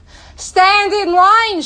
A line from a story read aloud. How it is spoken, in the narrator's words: shouted, in an attempt to discipline the hungry crowd